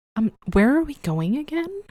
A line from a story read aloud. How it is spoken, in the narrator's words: she said sweetly